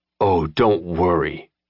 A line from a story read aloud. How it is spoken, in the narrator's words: Sincho growled